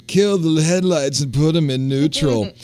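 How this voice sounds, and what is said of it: Imitates another person's voice. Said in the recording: “I'm going to do my Beck imitation,”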